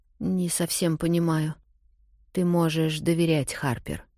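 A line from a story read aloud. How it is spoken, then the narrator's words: Quiet speech. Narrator (Russian): тихо говорит Рэйчел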